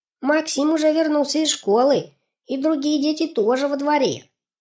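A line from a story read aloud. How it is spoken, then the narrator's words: Shouted. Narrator (Russian): крикнул Ане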